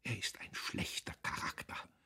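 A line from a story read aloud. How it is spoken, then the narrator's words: Whispered. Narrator (German): Frau von Wulkow wisperte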